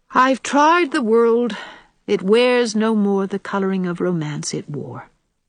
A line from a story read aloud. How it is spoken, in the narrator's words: sighed Anne